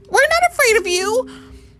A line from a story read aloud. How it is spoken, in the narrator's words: squeaked